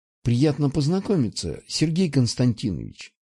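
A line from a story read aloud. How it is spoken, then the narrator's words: Quiet. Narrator (Russian): произнесла она тихо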